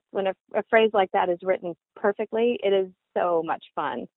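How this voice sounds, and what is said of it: Usual voice. Nothing is said of it.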